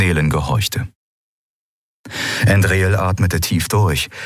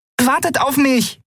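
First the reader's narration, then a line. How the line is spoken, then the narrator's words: Calling after. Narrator (German): rief Nelen ihnen hinterher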